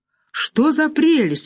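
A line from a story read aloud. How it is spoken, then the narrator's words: Exclamation. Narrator (Russian): воскликнула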